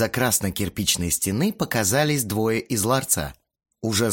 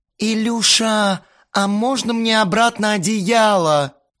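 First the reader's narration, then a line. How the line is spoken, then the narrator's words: Whimpering. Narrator (Russian): захныкала Кристина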